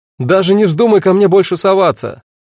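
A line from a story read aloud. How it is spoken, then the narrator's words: Shouted from window. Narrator (Russian): крикнула Агата, высунувшись из окна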